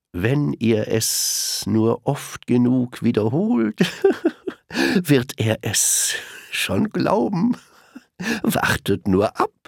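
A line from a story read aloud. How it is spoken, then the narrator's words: Giggling. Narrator (German): kicherte sie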